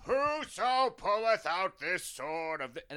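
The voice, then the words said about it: A good impression voice. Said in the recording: “that's a really good impression”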